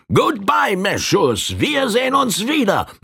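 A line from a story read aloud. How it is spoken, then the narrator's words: Exclaimed. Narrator (German): rief er aus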